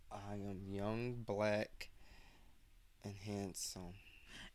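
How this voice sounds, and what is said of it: Changed, put-on sexy voice. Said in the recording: “I like how you changed your voice. ... you gave him a sexy voice. ... you really changed it up ... that sexy voice”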